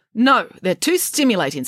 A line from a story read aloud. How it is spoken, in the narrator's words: snapped the head nurse